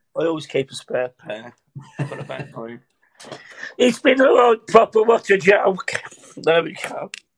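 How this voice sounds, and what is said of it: Comic character voice. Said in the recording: “Gary Poundland ... do the voice?”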